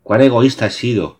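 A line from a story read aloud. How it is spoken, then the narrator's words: Exclaiming. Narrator (Spanish): exclamó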